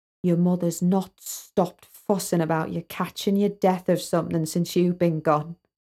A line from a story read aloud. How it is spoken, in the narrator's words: He whispered